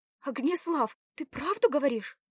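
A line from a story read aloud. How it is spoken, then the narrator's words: Joyful exclamation. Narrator (Russian): воскликнула радостно Белава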